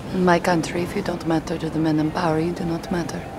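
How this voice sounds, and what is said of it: Russian accent. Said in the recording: “a Russian accent”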